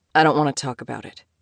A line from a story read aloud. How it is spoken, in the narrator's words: he said firmly